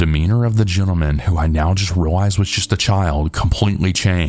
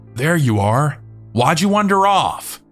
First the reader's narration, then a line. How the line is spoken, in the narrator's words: a small elderly black lady started yelling